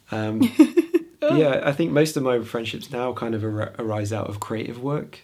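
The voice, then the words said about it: Strained, fading voice. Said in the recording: “I'm losing my voice, but I'm so emotional.”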